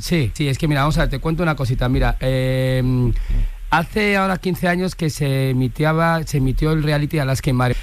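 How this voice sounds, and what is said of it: Valencian accent. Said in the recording (Spanish): “habla todo el rato con acento valenciano”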